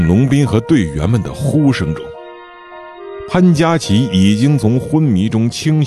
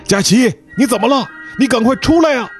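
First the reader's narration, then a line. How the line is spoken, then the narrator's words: Worried loud shouting. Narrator (Chinese): 深感情况不妙，大声地喊着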